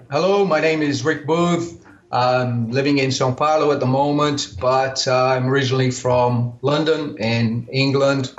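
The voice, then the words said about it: British accent with American, Australian influence. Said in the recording (Portuguese): “my accent is traditionally from Britain, I have had some influence over the years. I've lived in America and also spent some time in Australia, which... kind of has reflected a little bit on my accent ... sotaque britânico”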